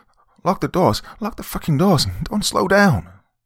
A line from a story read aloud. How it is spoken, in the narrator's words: she cried